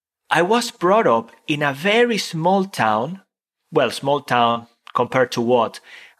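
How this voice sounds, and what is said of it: Non-native English accent. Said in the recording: “Not to say that I speak very well now. I've got my accent and everything else.”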